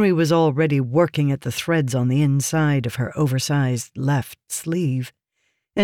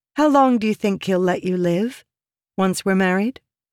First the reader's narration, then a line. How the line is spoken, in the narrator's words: she asked